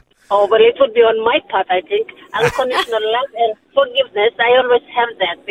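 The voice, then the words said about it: Papua New Guinean English accent. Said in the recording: “accent ... Papua New Guinea ... is that an islander accent? ... Papua New Guinea”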